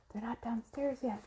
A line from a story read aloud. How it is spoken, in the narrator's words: whispered Annie